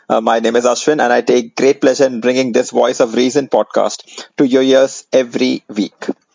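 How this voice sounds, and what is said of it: Indian English accent. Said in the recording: “in an Indian accent”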